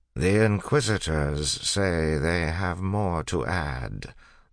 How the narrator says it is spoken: the Lord Ruler said in a tired voice

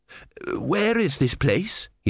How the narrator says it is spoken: He said hoarsely

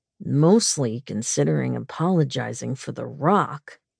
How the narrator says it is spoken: he said, his voice low and smooth

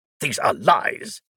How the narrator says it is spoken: Veer snapped

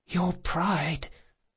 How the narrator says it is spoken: the boy whispered

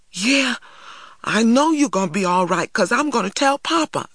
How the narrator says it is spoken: I cried

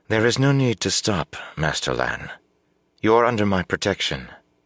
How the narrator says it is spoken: she said coolly

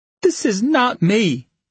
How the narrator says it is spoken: choked out

